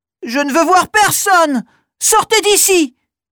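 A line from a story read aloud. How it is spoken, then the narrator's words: Shouting. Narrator (French): crie Pernille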